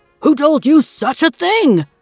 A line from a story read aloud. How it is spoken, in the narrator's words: the guard cried back